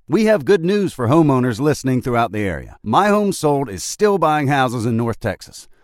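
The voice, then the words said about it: Southern American accent. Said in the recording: “I love the Southern accent.”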